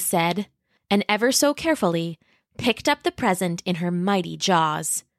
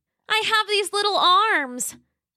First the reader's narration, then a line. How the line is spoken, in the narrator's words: Roxy cried